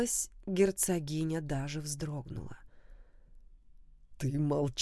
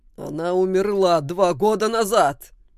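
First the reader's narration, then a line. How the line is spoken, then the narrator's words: Roaring. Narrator (Russian): Саймон взревел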